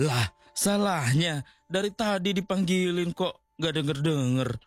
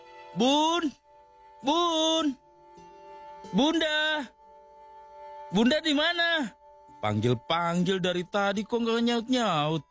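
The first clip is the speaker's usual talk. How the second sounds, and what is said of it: Shouting loudly. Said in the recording (Indonesian): “Kok teriak-teriak? ... Kenapa bapak pakai teriak-teriak segala?”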